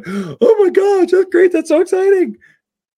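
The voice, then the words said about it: High-pitched falsetto voice. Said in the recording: “not in that pitch ... falsetto”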